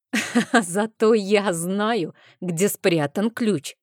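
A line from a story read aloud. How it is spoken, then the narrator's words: Hoarse laugh, speaking. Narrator (Russian): Хрипло рассмеявшись, сказала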